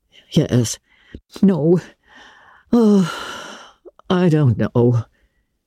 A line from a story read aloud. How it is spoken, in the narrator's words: said Marilla wearily